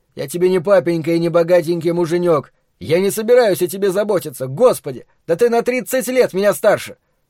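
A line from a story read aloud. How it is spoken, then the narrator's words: Angry, nearly full yell. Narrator (Russian): это разозлило его больше, и он чуть не заорал в полный голос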